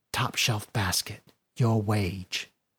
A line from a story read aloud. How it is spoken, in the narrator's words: Tess leaned into Ashen and whispered